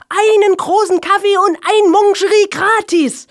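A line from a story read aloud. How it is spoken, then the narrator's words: Exhausted shout. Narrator (German): ergänzte Helge und schrie mit letzter Kraft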